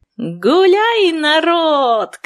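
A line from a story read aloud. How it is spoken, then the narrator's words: Shouted. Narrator (Russian): крикнула я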